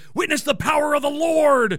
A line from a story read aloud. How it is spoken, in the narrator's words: someone who was always screaming things like